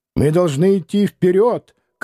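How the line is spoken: Shouting, strange accent. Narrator (Russian): кричал он, странно акцентируя

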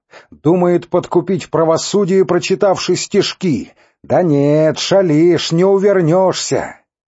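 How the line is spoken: Very loud. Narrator (Russian): сказал очень громко

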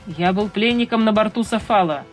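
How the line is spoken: Plain. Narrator (Russian): ответил я

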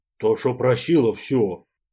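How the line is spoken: Droning, indifferent older man. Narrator (Russian): прогудел старший

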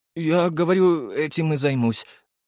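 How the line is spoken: Trembling voice. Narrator (Russian): дрогнувшим голосом сказал тренер

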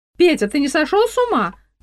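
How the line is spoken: Shouted from another room. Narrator (Russian): крикнула я из кухни

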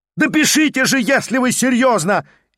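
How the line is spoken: Hysterical shout. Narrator (Russian): истерически прикрикнул Петр Степанович

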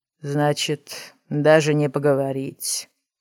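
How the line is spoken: Sighing stranger. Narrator (Russian): вздохнул незнакомец

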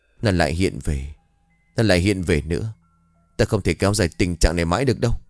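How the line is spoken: Muttering under breath. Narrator (Vietnamese): Hiếu đã lẩm bẩm trong miệng

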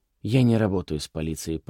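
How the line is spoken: Entranced mutter. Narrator (Russian): пробормотал Манос

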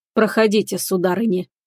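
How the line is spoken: Said in low voice. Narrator (Russian): произнес низким голосом

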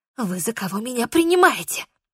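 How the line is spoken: Hissed. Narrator (Russian): прошипела я

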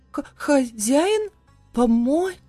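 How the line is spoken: Stunned, forced out. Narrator (Russian): опешив, выдавила

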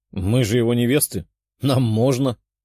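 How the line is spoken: Laughing. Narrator (Russian): хохотнула Светлана

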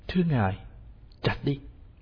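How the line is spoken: Choked, barely audible. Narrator (Vietnamese): cây tre nghẹn ngào nói không ra tiếng

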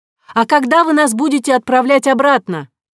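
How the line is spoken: Call after someone. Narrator (Russian): крикнула вслед ему Кора

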